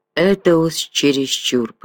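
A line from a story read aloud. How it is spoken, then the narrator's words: Mutter. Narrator (Russian): пробормотал он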